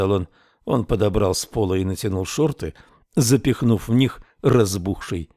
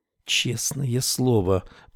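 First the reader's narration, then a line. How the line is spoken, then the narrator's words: Anxious whisper. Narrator (Russian): прошептала она, тревожно глядя на дверь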